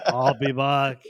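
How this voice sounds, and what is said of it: Imitates another person's voice. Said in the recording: “I'm not even going to try that accent.”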